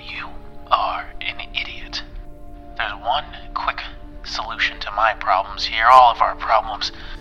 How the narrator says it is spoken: in a low voice, and he says

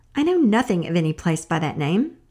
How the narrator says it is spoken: Old Befana didn't like being interrupted in her chores, and she answered crossly

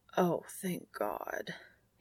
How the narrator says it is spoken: he croaks

